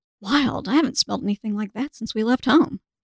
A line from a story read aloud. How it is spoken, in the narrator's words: he whispered